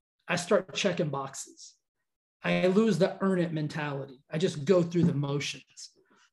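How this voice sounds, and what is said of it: Voice drops, lower flatter energy. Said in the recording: “You can see my voice just down-regulated when I started to talk about the force of average.”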